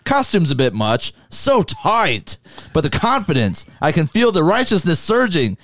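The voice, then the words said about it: Put-on accent while quoting lines. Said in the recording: “I just like your accent with so tight.”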